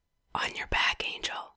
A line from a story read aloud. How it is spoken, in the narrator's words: whispers, lascivious on purpose